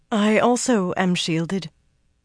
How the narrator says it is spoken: said unsteadily

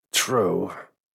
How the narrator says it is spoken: Maury murmured

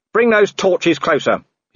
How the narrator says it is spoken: he shouted

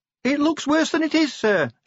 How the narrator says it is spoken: shouted Cheery over the din

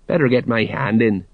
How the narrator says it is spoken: he muttered

